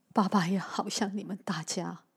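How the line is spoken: Crying. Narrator (Chinese): 小光哭着说

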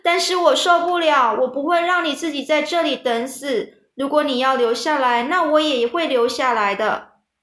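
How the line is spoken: Shouting. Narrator (Chinese): 韦伯就叫着说

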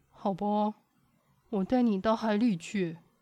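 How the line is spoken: Sighing. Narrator (Chinese): 山田叹了一口气说

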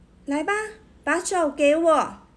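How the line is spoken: Loud shout. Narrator (Chinese): 乔治大声喊

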